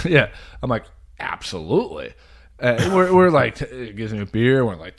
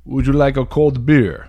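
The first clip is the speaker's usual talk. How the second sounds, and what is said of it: Thick Russian accent impression. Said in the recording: “big, thick Russian accent”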